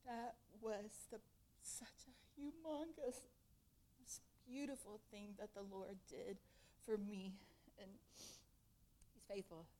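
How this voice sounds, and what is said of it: Tearful, emotional voice. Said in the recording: “I'm a little bit teary”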